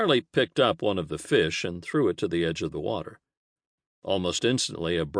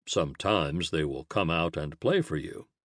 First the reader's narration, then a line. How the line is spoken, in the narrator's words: Charlie said